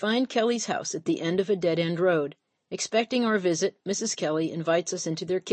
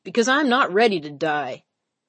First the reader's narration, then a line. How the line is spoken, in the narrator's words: shouted Kelly